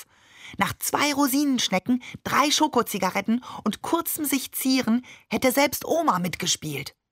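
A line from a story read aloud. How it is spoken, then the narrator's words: Inner-voice whisper. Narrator (German): flüsterte Tutu in meinem Kopf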